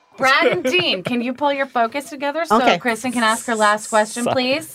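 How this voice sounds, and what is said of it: Stern middle school teacher voice. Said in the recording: “I'm using my middle schooler teacher voice”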